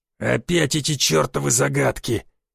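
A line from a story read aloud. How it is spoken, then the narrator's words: Growling brute. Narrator (Russian): прорычал заросший громила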